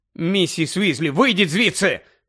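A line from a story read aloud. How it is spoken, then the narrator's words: Shouting. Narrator (Ukrainian): крикнув Гаррі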